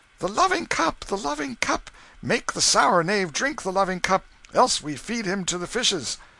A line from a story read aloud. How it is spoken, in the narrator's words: They cried out